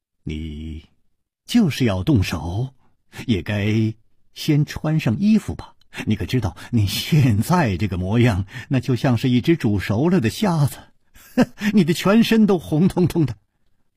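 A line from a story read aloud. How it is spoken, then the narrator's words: Smiling, cool and indifferent. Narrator (Chinese): 楚留香笑了笑，淡淡地说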